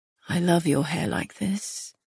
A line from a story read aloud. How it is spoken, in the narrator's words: he murmured